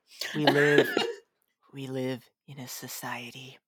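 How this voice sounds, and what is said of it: Poor attempt at Joker voice. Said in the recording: “I can't do a Joker voice. That was a terrible attempt”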